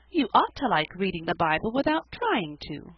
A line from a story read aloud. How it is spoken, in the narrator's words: exclaimed Felicity